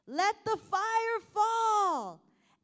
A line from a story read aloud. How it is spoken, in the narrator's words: they would yell all the way across the valley